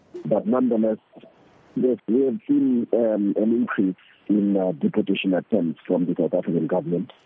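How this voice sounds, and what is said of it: Congested voice from a flu. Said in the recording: “I hope I'm audible enough from coming up with a flu. So coming up with a flu, I'm hoping that my voice is audible enough.”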